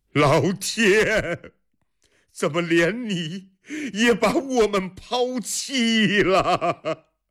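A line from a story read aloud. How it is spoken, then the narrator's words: Bitter laugh, despairing shout. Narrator (Chinese): 阿史那斯摩 他发出一声苦笑，绝望地仰天喊着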